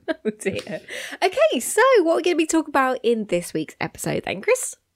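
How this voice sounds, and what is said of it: Slightly raspy voice. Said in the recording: “A little bit, I'm sorry for a bit raspy.”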